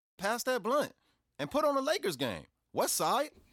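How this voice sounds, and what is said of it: Put-on hard L.A. American accent. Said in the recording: “the American accent is much better for the street credibility ... How did you master that L.A. accent like that? You know, that hard. ... doing this accent ... you sound just like my son's barber”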